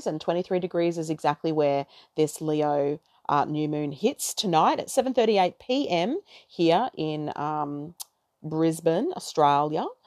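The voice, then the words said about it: Broad Australian accent with twang. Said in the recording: “sounded very Aussie there, didn't I? ... why do we sound like bogans? ... I've got that twang, baby, that fucking twang.”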